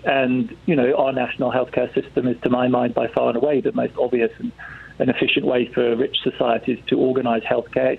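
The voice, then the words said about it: English accent. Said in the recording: “you can tell from my accent I'm born English”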